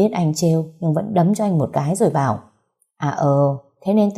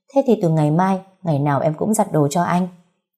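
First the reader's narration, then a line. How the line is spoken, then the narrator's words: Laughing speech. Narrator (Vietnamese): vẫn bật cười nói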